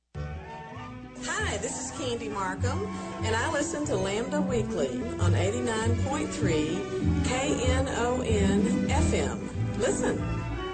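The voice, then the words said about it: West Texas accent. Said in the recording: “can you tell she's from West Texas? ... Sometimes that accent just does not go away.”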